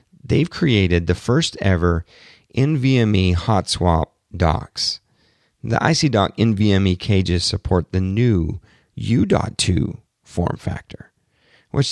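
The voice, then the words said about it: Hoarse, strained, worn-out voice. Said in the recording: “my voice is completely getting wrecked talking to you today. I hope it doesn't sound too bad ... before my voice gets even more completely wrecked”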